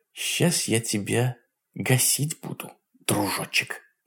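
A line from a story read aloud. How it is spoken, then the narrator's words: Muttering. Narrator (Russian): пробормотала она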